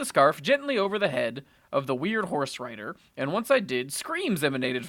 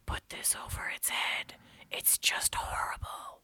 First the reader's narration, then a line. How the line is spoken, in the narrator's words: She whispered in my ear